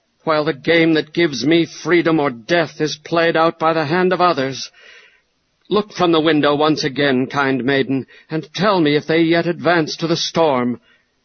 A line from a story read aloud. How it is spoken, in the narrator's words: exclaimed Ivanhoe